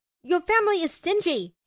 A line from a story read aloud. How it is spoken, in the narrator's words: He yelled